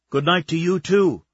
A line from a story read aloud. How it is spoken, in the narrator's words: she said loudly, just to piss him off